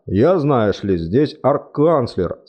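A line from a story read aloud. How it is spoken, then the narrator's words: Calm reply. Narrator (Russian): спокойно ответил Чудакулли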